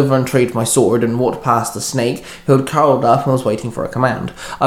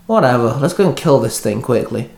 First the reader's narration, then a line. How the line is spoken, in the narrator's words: Dante sighed at me